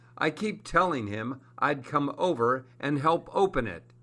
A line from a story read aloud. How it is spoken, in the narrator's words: he laughs from his home in Los Angeles